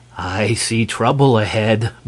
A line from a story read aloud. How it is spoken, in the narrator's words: murmured the esquire, almost cheerfully